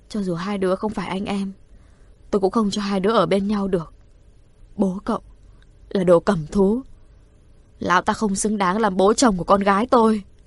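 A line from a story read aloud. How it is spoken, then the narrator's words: Choked-up woman. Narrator (Vietnamese): bà thoáng thả lỏng, nghẹn ngào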